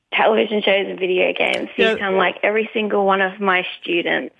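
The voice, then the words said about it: Australian accent. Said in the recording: “maybe I can be Harry's Aussie best friend ... I noticed an accent”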